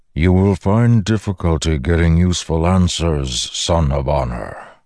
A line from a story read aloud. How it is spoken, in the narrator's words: the Stormfather rumbled